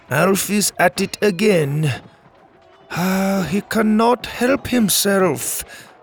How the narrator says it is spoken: Harish added with a sigh

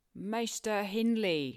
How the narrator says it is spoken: shouted our chaplain

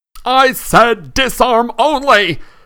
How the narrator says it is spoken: Lockhart shouted in alarm over the heads of the battling crowd

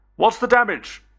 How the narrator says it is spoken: I called out

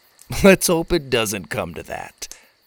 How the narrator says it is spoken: Clunk laughed

